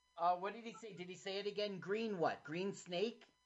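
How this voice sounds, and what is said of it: Put-on English accent. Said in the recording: “I gotta stop with this English accent.”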